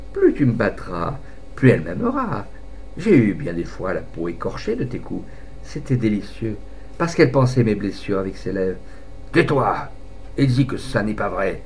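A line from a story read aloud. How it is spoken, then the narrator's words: Said with a sneer. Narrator (French): Il dit en ricanant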